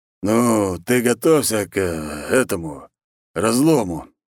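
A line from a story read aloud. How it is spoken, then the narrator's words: Hesitant big man. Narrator (Russian): неуверенно сказал большой и уверенный в себе мужик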